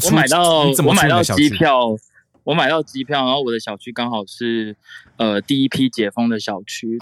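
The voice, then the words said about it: Taiwanese-accented Mandarin. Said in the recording (Chinese): “这个听起来是台湾口音”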